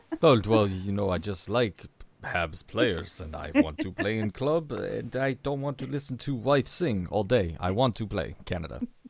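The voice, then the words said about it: Imitated Czech accent, broken English. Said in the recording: “I can't do a Czech accent ... Is that a Plekanec?”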